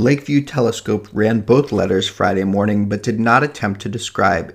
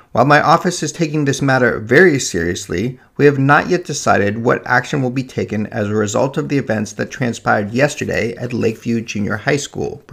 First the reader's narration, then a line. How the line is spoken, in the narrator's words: Brown said